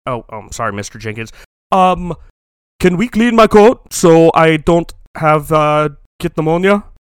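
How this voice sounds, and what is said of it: Stereotypical put-on accent. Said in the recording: “always speak in your stereotypical accent.”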